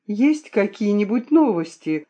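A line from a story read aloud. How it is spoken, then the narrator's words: Anxious question. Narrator (Russian): спросила я взволнованно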